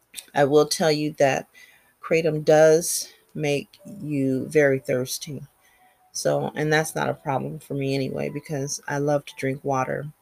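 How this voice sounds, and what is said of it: Slightly scratchy voice. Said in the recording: “My voice is a little scratchy right now because I didn't bring my water next to me.”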